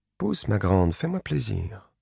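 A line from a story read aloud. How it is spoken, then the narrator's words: Murmured. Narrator (French): murmura-t-elle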